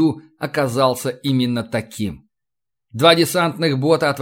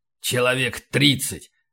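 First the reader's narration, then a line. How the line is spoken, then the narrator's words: Grumbled. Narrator (Russian): пробурчал Эванс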